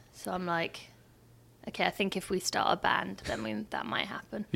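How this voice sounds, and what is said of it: English accent. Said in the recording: “the accent. ... What is this accent? ... it was kind of fun being the English girl”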